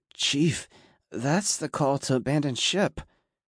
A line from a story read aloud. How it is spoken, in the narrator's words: FS3 Clark squeaked, his voice cracking as he looked at me wide-eyed with fear